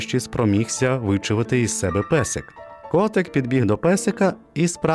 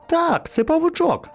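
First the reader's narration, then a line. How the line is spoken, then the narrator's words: Exclamation. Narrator (Ukrainian): вигукнув він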